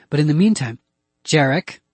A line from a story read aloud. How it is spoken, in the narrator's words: Joe said loudly